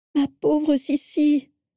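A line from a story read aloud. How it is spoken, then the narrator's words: Moaning. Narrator (French): gémit Andromeda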